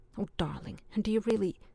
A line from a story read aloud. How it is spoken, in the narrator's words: with so much conviction that Allison began anxiously